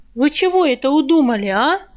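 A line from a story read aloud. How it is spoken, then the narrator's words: Shrill shriek. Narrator (Russian): визгливо заорала она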